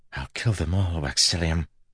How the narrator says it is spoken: she whispered

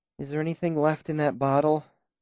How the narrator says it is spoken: She asked wearily

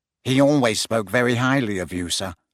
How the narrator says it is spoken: said Malfoy quickly

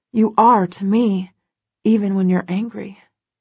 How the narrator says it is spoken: I whisper

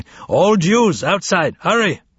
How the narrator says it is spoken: Hungarian police were yelling in the street nearby

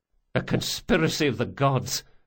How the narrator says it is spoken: Locke muttered

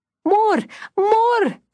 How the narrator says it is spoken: she cried

